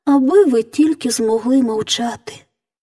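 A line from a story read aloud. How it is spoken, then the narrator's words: Sighing. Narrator (Ukrainian): зітхнула принцеса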